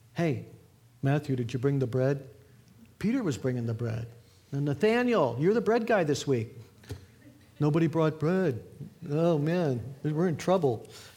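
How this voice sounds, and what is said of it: Thick, dim-witted put-on accent. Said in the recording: “I'm adding their thick accent ... They might have not been talking like morons”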